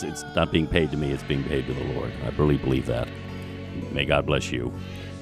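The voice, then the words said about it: Polished radio-announcer voice. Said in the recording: “has a killer radio voice.”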